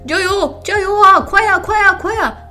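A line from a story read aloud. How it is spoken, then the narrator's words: Shouting amid crowd noise. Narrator (Chinese): 竞技场内人声鼎沸，有人呐喊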